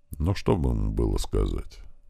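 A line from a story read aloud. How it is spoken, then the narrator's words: Quiet, after a sigh. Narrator (Russian): Андрей помолчал, вздохнул и тихо выговорил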